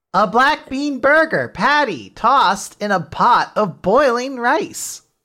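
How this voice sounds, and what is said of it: Unnatural text-to-speech style voice. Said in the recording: “you do the TikTok voice so well ... It's all about just making it not sound natural.”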